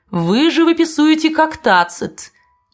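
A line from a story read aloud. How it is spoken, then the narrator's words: Laughing. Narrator (Russian): засмеявшись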